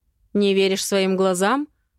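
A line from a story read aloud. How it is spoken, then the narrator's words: Angry smirk, mother. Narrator (Russian): зло усмехается мама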